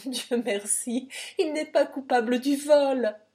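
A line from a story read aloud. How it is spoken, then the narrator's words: Sobbing. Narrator (French): dit-il en sanglotant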